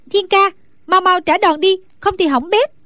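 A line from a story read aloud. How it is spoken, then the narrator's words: Anxious shout. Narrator (Vietnamese): Nàng càng theo dõi càng thấy hồi hộp lo lắng, bèn la lên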